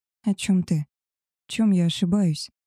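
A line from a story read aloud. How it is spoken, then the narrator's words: Uncertain question. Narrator (Russian): неуверенно спросила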